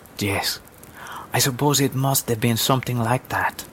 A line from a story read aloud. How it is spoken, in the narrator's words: the woman said softly